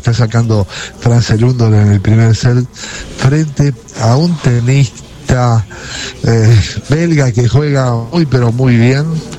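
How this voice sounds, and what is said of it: Hushed quiet voice. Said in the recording (Spanish): “estoy poniendo voz de tono de tenis porque estoy muy cerca de la cancha ... Ustedes no hablen muy fuerte tampoco”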